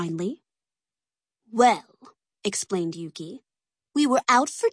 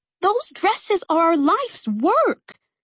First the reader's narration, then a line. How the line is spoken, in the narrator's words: Cece cried